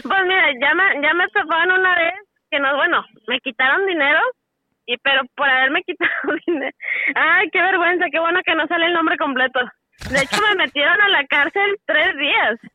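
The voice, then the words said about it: Strong regional Mexican accent. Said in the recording (Spanish): “trae el acento, trae ah, bien marcado ... Sí, trae el acento”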